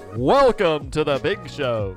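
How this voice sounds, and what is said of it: Big booming radio announcer voice. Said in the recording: “That's my best big radio voice”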